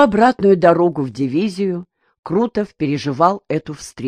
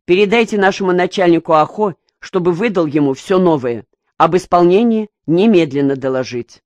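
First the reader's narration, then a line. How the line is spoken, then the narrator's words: Stern. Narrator (Russian): строго сказал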